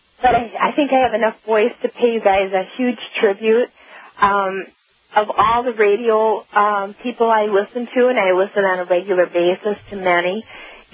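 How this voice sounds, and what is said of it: Strained voice after laryngitis. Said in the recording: “sorry about my voice, but I'm getting over laryngitis”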